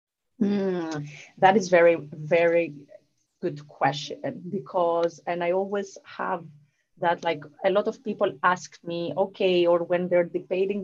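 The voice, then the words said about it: Southern European accent. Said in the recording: “my Southern European accent ... your accent again, so beautiful”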